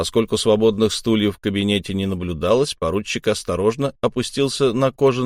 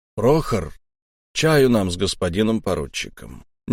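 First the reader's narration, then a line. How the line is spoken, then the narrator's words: Quiet gendarme. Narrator (Russian): негромко сказал жандарм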